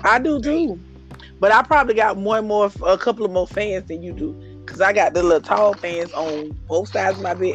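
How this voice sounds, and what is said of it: Congested voice from a cold. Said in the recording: “You're going to be congested. ... I'm already am. ... my voice when I have a cold”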